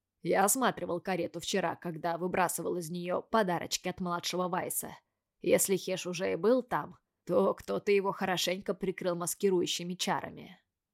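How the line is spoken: Plain. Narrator (Russian): сказал Райан Ковал

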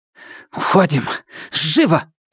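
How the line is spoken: Hissed. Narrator (Russian): зашипела груда грязных тряпок

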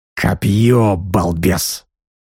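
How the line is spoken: Irritated hiss, old man. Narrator (Russian): раздраженно прошипел старик

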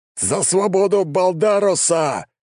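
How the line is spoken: Battle cry. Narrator (Russian): завопил герой

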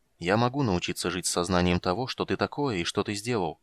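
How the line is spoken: Quiet. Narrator (Russian): негромко сказал Карамон

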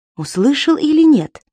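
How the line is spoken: Anxious question. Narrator (Russian): взволнованно спросил Алексей у Благова

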